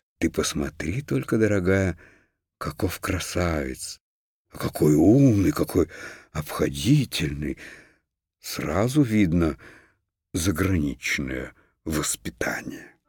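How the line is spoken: Delighted whisper. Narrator (Russian): Хрустальная ваза в восторге шептала

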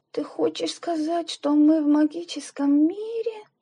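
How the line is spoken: Near-whisper, deeply melancholy. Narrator (Russian): Почти шепотом и очень тоскливо спросила Любочка

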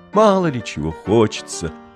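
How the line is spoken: Weary sigh, disillusioned schoolgirl. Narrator (Russian): вздохнула много уже чего повидавшего в своей жизни и даже в чем-то уже разочаровавшаяся восьмиклассница

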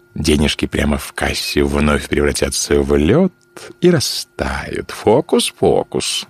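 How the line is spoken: Laughing. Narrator (Russian): засмеялся

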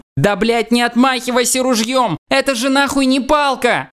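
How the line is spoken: Shouting. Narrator (Russian): кричал я

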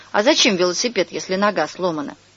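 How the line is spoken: Snorting. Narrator (Russian): Костик хмыкнул

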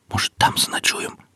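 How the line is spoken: Whisper. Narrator (Russian): прошептал Алексей

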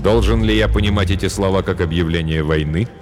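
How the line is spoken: Plain. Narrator (Russian): спросил король Этельред

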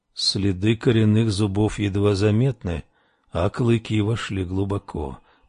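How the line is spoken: Muttering. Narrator (Russian): пробормотал он

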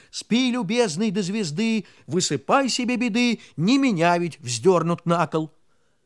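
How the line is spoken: Angry neighing shout. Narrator (Russian): конек над ним заржал и крикнул голосом сердитым

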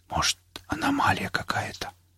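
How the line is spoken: Whisper. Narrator (Russian): прошептал Костик

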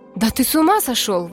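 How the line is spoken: Old woman exclaiming. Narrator (Russian): воскликнула седая дама

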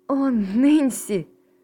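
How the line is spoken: Exclamation. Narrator (Russian): воскликнула Поляна

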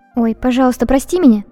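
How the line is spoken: Ashamed exclamation. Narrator (Russian): устудившись, воскликнула я

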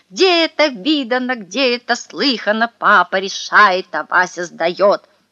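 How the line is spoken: Furious yelling. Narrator (Russian): Мне ужасно захотелось стукнуть его по затылку чем-нибудь тяжелым, и я заорал со страшной злостью

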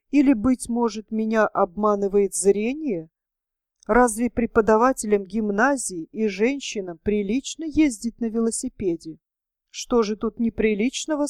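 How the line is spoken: Plain. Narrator (Russian): сказал я

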